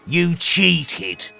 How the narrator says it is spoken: snarled the stall holder

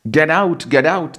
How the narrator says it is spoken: army personnel shouted

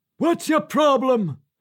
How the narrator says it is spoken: the man barked again

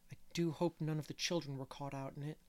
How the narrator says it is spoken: murmured Anne anxiously

